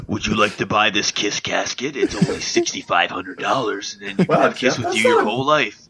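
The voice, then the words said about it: Imitates another person's voice. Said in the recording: “That's not a bad Gene Simmons there. That was one of your better ones. ... my impression of Kevin Smith's impression of Gene Simmons”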